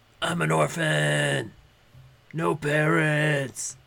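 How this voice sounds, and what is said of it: Deep gravelly Batman impression. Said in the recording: “Now I talk in a deeper voice ... Now I talk like Batman ... Why does Batman sound so much like BoJack Horseman?”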